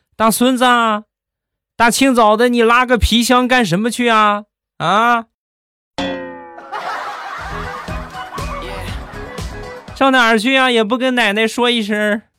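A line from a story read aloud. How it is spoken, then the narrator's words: Grandmother calling from upstairs. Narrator (Chinese): 他奶奶在楼上，在三楼看见了，看见之后就喊他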